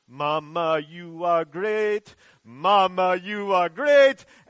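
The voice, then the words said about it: Put-on Kenyan accent, singing. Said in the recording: “that's my Kenyan accent, I'm sorry, I apologize for it”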